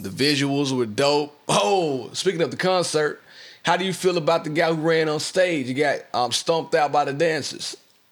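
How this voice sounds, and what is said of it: Deeper voice than usual. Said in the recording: “my voice is a little bit deeper than usual because I smoked a cigar this weekend and my voice just has not bounced back from that damn cigar”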